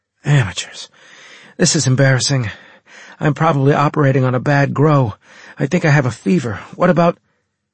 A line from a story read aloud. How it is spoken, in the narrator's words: Anne broke off and sucked in her teeth in a horrified gasp